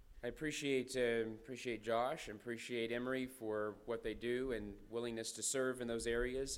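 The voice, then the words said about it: Voice affected, slightly strained. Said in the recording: “My voice is subject to the allergies this year, as it is every spring, so you have to bear with me a little bit.”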